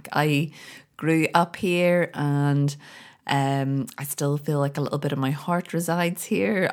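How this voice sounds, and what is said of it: Northern Irish Belfast accent. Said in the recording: “here in Belfast ... my accent gets that little bit stronger”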